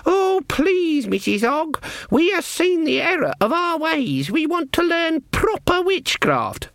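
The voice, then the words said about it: Mocking high falsetto voice. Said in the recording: “Her voice went falsetto.”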